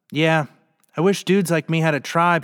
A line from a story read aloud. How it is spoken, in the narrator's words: he finally said